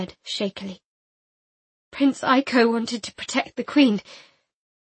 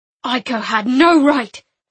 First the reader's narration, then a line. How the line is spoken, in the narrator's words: Master Dalla said harshly to me